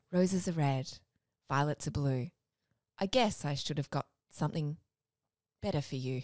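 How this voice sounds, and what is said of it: Posh 80s radio announcer voice. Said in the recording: “I'll do a radio voice ... That's not a bad voice ... Very like 80s posh”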